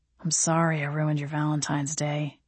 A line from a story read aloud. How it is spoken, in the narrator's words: he murmured against my neck, his voice soft on my skin